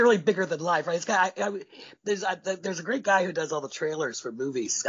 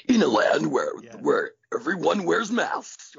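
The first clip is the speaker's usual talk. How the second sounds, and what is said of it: Deep epic movie-trailer voice. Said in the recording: “He's got that great deep voice.”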